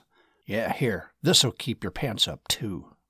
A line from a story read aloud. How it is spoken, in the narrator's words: Martin muttered